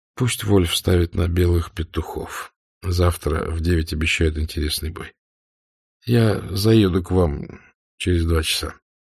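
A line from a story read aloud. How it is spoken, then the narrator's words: Low voice. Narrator (Russian): негромко сказал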